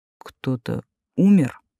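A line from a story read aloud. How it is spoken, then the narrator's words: Insinuating, menacing voice. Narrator (Russian): поинтересовался вкрадчивым голосом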